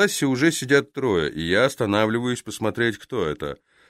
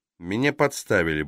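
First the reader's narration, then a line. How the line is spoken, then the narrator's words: Mutter. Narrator (Russian): бормочу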